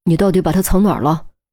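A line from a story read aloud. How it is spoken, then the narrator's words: Deep, grave question. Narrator (Chinese): 严峰再次沉声问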